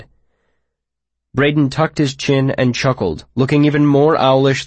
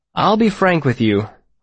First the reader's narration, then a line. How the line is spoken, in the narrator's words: I said